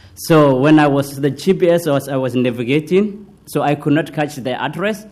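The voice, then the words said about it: Somali-accented English. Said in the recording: “Sometimes I have accent, so excuse me for that. So I born in Somalia.”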